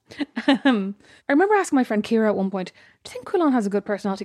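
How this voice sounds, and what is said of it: Speaking in high head voice. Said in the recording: “I'm doing my head voice now again.”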